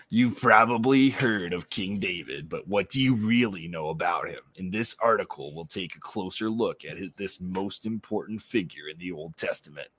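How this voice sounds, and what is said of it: Hyped-up announcer voice. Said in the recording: “I want to read some more in my announcer voice.”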